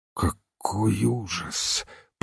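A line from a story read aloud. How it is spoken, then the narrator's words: Groaning. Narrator (Russian): простонал Ивен Смит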